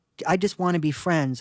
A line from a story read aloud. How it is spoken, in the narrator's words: I stammered